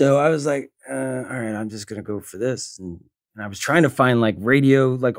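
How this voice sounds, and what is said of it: Usual voice. Nothing is said of it.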